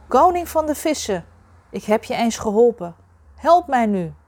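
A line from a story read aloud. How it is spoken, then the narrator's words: Calling out. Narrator (Dutch): Hij riep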